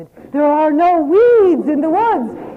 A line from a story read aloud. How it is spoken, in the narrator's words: I shouted